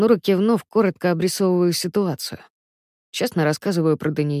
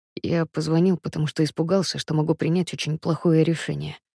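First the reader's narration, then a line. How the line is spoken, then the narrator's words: Quiet. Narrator (Russian): произношу тихо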